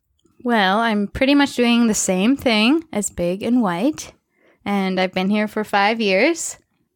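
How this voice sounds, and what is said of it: Strong Minnesota accent. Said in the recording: “I'm from Minnesota ... Can you tell by her accent? ... It's probably coming out really strong right now.”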